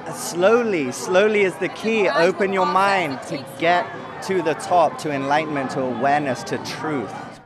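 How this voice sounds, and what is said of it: English accent. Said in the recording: “where is your accent from? ... England.”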